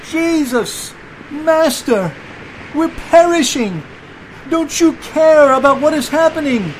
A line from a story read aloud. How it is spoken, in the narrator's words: one of the disciples yelled